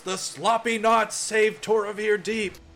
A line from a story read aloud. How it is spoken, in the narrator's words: Lord Richterite raises his arm in the air and shouts